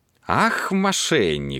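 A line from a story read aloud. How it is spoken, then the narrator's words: Snorting. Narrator (Russian): фыркнул Терренс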